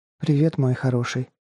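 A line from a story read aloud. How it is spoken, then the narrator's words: Breathed out softly. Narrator (Russian): выдохнула она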